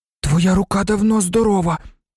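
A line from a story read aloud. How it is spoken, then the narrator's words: Hiss. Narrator (Ukrainian): просичав він Малфою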